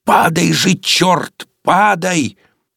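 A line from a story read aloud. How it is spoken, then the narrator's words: Fierce shouted whisper. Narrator (Russian): режиссер страшным шепотом крикнул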